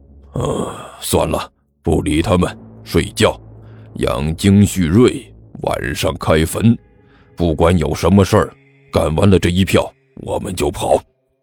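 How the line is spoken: Low muttering. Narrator (Chinese): 李彦都低声嘀咕了一句

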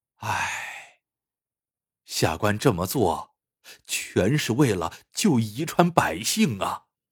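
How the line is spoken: Resigned, with long sigh. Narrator (Chinese): 见秘密被识破，梁荣长叹一声，说

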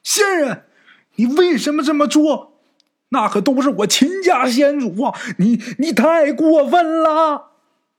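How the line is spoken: Angry shout. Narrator (Chinese): 冲这兔仙儿就喊

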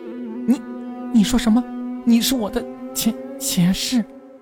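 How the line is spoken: Surprised, stammering. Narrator (Chinese): 小溪一脸的惊讶，连说话也结结巴巴的

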